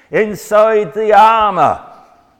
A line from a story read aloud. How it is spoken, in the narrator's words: leant over the edge of the balcony and shouted